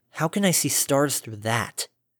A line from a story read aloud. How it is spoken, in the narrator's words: She muttered to the air